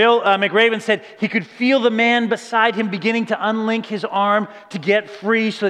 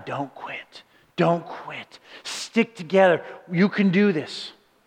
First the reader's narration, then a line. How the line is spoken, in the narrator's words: whispered up and down the line